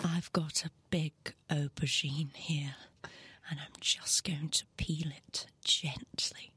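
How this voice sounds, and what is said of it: Sultry Nigella Lawson impression. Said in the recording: “Can you do a Nigella impression? ... sexy. ... Provocative.”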